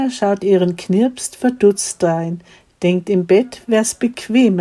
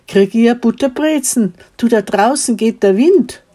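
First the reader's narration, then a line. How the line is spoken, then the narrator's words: Little boy calling quickly. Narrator (German): ruft der kleine Wastel geschwind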